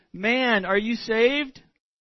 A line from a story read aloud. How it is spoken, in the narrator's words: cried Harper